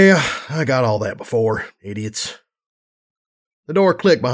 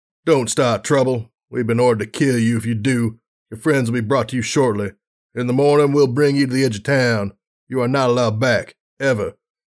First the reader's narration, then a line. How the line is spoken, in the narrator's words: One of the guards with the command